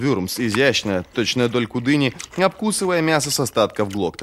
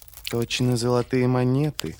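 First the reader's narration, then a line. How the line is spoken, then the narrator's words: Purring from below. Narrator (Russian): промурлыкал откуда-то снизу магистр Эйдер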